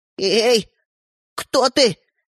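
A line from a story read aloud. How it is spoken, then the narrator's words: Trembling voice. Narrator (Russian): Дрожащим голосом проговорил Светлик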